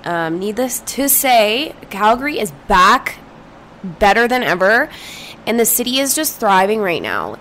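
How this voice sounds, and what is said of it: Strained, mostly lost voice. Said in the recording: “my voice sounds a little crazy ... I have lost my voice.”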